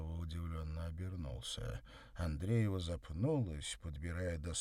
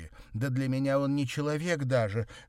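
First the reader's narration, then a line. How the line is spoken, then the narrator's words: Exclaimed, female. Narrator (Russian): воскликнула она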